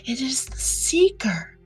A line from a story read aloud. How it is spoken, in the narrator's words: whispered Hannah, convulsively grasping her husband's arm